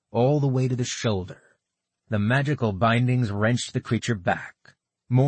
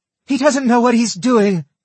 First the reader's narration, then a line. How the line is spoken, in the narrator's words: she shouted